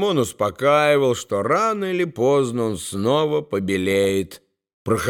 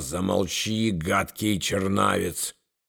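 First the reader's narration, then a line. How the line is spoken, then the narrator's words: Hissed. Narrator (Russian): Поэт шипел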